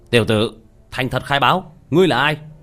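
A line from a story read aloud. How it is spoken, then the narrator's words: Stern shout. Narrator (Vietnamese): Một an ninh nữa lại nghiêm nghị quát lên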